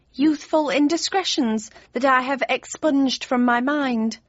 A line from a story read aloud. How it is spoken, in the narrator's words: sighed my mother